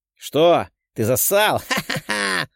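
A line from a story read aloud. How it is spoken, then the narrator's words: Laughing. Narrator (Russian): Рассмеялся коротышка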